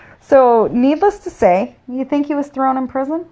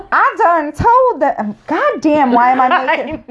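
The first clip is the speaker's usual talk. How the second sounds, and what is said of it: Weak put-on Southern accent. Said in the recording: “I'm sorry to the South because it ain't even a good Southern accent.”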